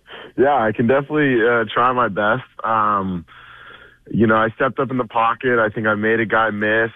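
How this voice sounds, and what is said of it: Hoarse, partly lost voice. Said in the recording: “I'm sorry, I lost my voice a little bit.”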